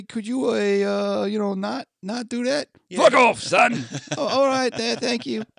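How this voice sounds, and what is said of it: Mr. Creosote impression. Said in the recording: “What accent did you just give that pig? ... I think he was that guy from Monty Python and the Quest for the Monty Python: The Meaning of Life, who was eating the thin mint wafer. ... Oh, Mr. Creosote. ... Seems like a good accent for a pig.”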